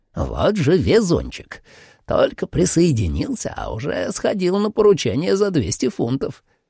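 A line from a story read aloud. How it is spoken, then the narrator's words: Envious, creaky. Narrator (Russian): завистливо проскрипел он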